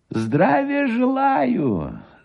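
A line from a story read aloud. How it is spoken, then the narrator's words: Thin high-pitched voice. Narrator (Russian): сказал Гусев тонким и высоким голосом, составлявшим резкую противоположность с его толстым брюхом и низким ростом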